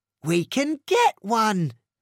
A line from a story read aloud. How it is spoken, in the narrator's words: cried Hot Dog